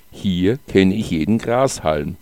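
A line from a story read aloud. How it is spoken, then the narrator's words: Plain. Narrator (German): sagte der Dichter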